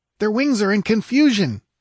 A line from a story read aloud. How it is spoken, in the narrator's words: he cried